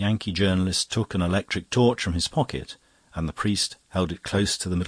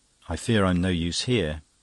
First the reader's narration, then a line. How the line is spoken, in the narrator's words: he said with a brief sigh